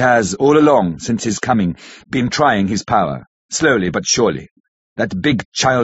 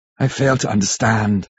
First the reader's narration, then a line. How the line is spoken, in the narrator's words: said Harker, wearily